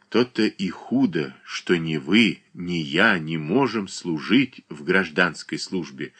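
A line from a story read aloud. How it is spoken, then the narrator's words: Calm remark. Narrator (Russian): спокойно замечал Александр Прохоров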